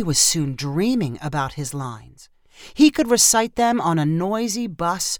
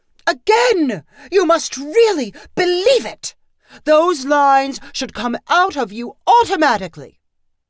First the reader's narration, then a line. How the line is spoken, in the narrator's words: Grimmel kept shouting